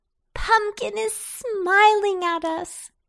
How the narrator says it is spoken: laughed Babette

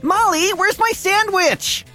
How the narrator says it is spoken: Aiden yelled from the TV room

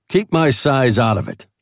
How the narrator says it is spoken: I snapped

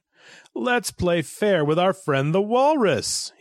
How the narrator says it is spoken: cried

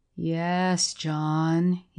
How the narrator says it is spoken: he was saying in his drawling, self-congratulating voice

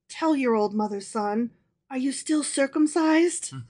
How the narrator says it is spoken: in a confidential voice, she whispered

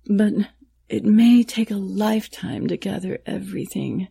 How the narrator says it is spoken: the artisan said wearily

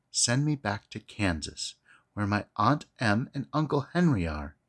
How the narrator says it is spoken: she answered earnestly

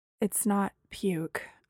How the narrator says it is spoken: I said faintly

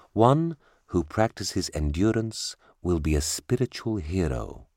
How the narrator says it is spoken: the teacher said

